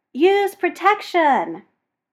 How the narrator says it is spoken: because he's a dick, he yells

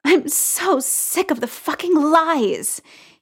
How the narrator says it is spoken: he spat out, and it sounded like a sob to his own ears

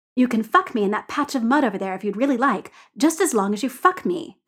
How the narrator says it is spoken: snaps Dorian

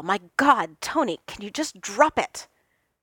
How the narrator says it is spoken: Steve snapped

